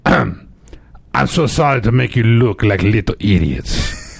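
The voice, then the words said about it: Attempted Czech accent, sounding German. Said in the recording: “Today, this is going to be Czech, okay? ... That's not it at all. That's closer to German.”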